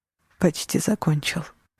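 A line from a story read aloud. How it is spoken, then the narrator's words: Gentle, affectionate. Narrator (Russian): ласково сказал он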